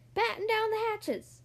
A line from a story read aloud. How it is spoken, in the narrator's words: Everybody ran around yelling